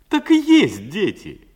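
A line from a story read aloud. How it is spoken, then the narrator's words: Happy laughter. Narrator (Russian): счастливо засмеялся Васька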